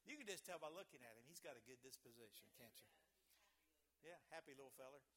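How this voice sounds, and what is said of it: Speaks with a noticeable regional accent. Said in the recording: “I know my accent gets me in trouble.”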